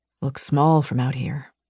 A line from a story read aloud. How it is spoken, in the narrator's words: he murmured